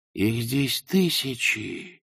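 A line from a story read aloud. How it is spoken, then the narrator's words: Whispered. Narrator (Russian): прошептал он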